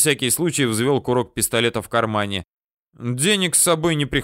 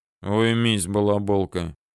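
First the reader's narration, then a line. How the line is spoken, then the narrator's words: Deep voice from dark corner. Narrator (Russian): пробасил кто-то из темного угла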